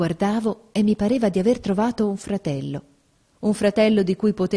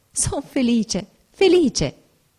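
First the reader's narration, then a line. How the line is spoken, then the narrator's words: Ecstatic joyful exclamation. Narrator (Italian): felicità viva, inebriante, giungendo le mani esclamai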